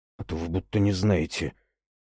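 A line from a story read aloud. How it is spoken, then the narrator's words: Grumbling mutter. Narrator (Russian): буркнул в ответ Богомольцев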